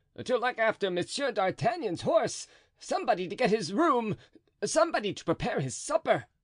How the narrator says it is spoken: cried Planchet

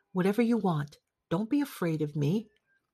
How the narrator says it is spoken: whispered after a while

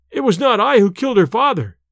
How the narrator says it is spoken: he cried

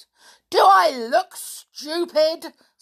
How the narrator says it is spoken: snarled Uncle Vernon

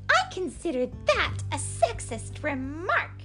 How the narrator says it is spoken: snapped Sister angrily

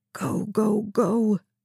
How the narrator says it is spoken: Raphael whispered, coaxing his car

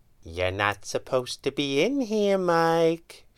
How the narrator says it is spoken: she purred

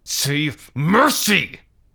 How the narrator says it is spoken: shouted

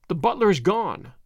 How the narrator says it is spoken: said

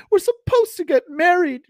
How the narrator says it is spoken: she whined miserably

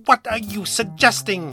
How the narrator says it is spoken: he sputtered, his face turning an alarming shade of crimson in an instant

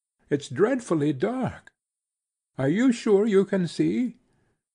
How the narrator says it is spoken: He laughed contemptuously

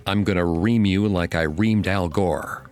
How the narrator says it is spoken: Fake Bush bellowed

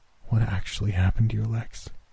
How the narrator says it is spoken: She asked faintly

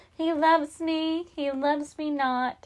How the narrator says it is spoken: Minnie sighed

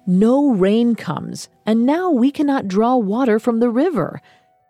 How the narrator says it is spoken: One man barked

